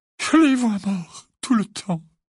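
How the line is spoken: Moaning. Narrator (French): gémit Mrs

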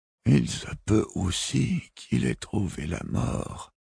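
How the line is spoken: Weak, careful articulation. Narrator (French): articula faiblement Robin

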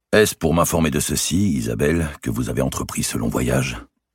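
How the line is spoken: Cold king's question. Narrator (French): demanda le roi d'une voix sans chaleur

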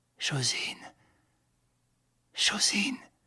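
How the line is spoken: Very faint murmur. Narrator (French): murmura-t-il si bas qu'elle ne l'entendit point

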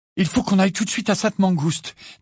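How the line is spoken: Feverish voice. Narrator (French): dit Ginny d'une voix fébrile

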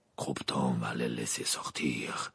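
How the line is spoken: Murmuring. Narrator (French): murmura Maugrey à Dumbledore

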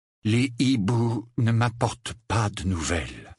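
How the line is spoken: Flat toneless voice. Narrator (French): affirma-t-il d'une voix sans timbre

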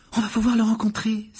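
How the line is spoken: Exclaimed. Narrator (French): s'écria Hermione

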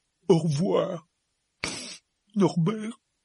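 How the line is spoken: Sobbing. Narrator (French): sanglota Hagrid

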